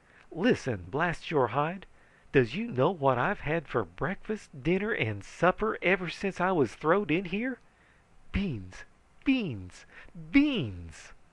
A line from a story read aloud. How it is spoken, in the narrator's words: he was so overcome by emotion that he choked on the word